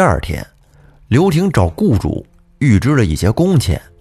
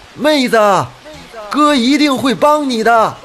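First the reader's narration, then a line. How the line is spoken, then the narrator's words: Shouting loudly. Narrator (Chinese): 对着河水大喊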